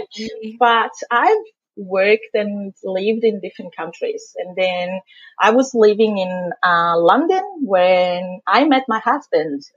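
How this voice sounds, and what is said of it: Thick Italian accent. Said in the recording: “where is this amazing accent? ... I'm from Italy originally. ... I still kept my thick Italian”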